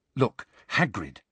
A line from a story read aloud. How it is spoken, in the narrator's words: said Hermione urgently